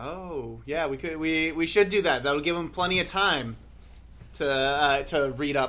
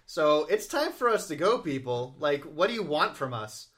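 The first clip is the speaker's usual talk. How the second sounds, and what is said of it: Yelling. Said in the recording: “Stop yelling.”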